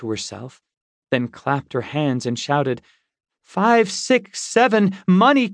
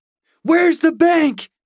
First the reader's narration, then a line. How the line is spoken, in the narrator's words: I shouted at him